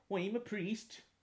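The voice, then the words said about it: Irish priest, Cork accent. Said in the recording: “this Irish priest character with a, a Cork accent”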